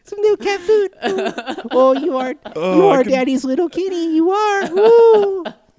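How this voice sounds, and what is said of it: Baby talk voice. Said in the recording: “baby talk to my cats”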